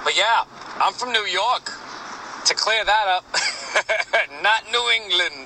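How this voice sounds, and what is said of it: Slight East Coast regional accent. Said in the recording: “That's probably why you hear that little accent.”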